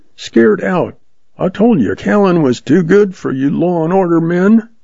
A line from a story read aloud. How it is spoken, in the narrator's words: Jack yelped